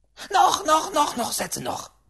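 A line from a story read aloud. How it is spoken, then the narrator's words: Shouting great-aunt. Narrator (German): schrie die Großtante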